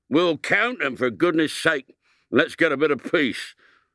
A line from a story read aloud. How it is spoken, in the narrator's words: said Bates more irritably than ever